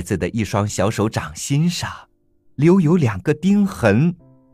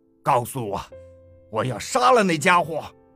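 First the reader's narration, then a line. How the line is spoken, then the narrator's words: Giant roaring. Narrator (Chinese): 巨人吼道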